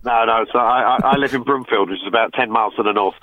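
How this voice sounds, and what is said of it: London accent, not local Irish. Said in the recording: “I don't have a Carrickmacross accent ... Not a bit ... originally, I'm from London”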